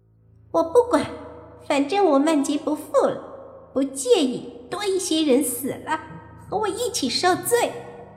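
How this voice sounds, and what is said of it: Childish voice, sneering ghost baby. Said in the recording (Chinese): “鬼婴冷笑，用稚嫩的声音说”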